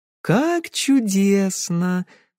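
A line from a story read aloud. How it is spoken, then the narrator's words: Sweet sing-song voice. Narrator (Russian): сладким голоском пропела Кэсси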